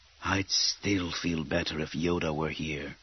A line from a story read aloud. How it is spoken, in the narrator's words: Kit Fisto muttered